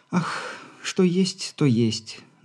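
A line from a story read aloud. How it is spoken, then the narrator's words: Affectedly languid sigh. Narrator (Russian): нарочито томно вздохнула Попова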